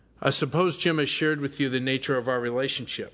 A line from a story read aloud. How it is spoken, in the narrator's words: said Mary